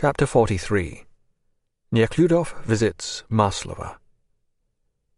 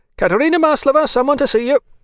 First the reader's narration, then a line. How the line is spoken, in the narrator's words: cried the warder